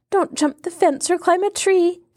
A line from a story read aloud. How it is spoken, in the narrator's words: gasped the girl